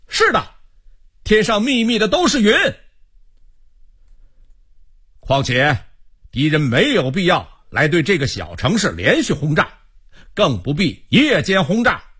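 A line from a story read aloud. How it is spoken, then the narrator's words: Calling out too. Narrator (Chinese): 罗明也跟着叫道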